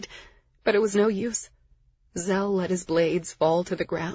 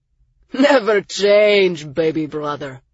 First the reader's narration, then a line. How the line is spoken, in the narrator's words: Raz laughed